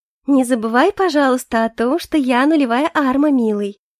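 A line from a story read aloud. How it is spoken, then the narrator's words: Sing-song, smiling. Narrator (Russian): Певучим голосочком произнесла Сиренити с очаровательной улыбкой на устах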